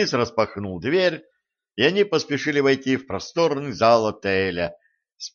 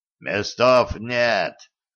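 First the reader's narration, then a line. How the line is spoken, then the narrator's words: Rough hoarse wheeze. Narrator (Russian): грубо просипел один из охранников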